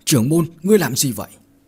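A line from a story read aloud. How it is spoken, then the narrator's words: Loud shout. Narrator (Vietnamese): Bách Hạo liền hét lớn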